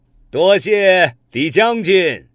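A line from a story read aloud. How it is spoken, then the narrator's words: Smiling warmly. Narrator (Chinese): 这太乙真人呢，笑眯眯的说道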